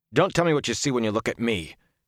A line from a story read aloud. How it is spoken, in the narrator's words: he said harshly